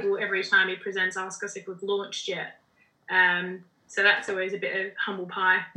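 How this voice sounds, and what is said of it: Australian accent. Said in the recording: “I always forget that I have an Australian accent as well”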